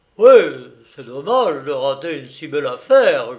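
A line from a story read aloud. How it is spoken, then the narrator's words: Grumbled. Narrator (French): grogna Reynaud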